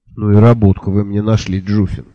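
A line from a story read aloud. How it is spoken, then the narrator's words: Grumbling. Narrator (Russian): проворчал сэр Кофа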